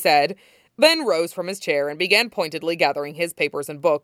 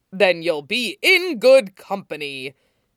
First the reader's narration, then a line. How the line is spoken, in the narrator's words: Toshinori boomed